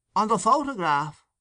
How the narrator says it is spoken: exclaimed Mr

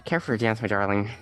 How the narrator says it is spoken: Pedro asked quietly

